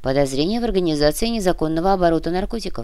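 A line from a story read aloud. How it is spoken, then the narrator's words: Plain. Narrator (Russian): ответил Корнилов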